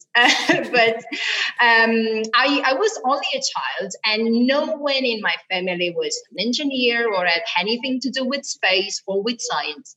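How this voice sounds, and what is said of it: Italian accent. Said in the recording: “I'm Italian. You may probably tell from my accent”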